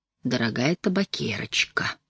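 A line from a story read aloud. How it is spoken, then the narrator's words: Tender whisper. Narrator (Russian): ласково шепнул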